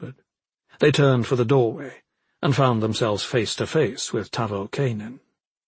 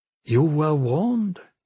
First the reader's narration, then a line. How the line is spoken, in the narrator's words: Clizia said softly